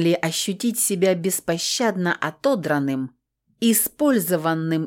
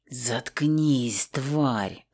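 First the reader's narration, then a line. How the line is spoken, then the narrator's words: Hissed. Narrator (Russian): зашипел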